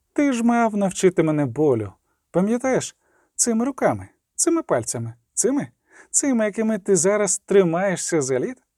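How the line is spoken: Plain. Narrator (Ukrainian): Рінс відповів

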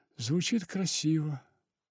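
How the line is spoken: Young woman's sad smirk. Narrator (Russian): грустно усмехнулась девушка

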